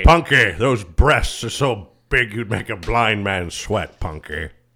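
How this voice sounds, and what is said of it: Impression of George Gaines. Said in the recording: “Do your George Gaines impression.”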